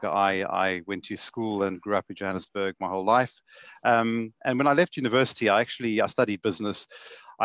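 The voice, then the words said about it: South African accent. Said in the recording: “I originate from South Africa, as you can hear from my accent, Johannesburg.”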